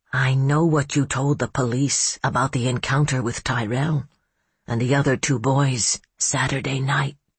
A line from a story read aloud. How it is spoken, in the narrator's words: he said, in a strangely quiet voice, as if it were a lurid secret